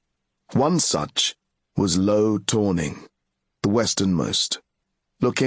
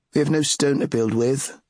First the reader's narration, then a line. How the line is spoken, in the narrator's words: said one